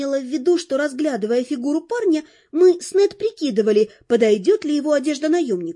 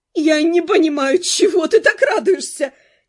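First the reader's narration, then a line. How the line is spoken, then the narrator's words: Shouted through laughter. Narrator (Russian): крикнула сквозь смех наемница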